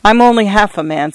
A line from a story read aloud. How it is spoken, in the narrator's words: said McNair